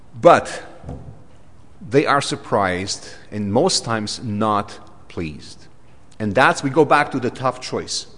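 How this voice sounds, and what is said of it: Thick Romanian accent. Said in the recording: “when I'm tired, my brain goes Romanian more than English. And I get that thick Dracula accent, you know, sometimes.”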